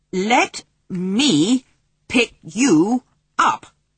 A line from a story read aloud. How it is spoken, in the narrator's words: Omri said, very slowly